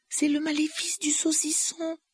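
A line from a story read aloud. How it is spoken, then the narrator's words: Sorry voice. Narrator (French): dit Hermione d'une voix navrée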